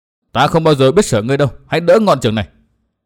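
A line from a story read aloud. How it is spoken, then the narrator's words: Angry. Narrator (Vietnamese): Nguyên Bình giận dữ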